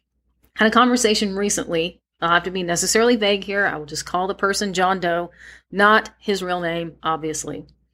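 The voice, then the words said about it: Strained, slightly congested voice. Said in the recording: “my voice has been a little bit unhappy with me. I'm also having some kind of sinus and allergy drainage today ... If I sound a bit funny”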